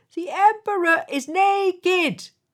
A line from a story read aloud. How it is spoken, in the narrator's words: They shouted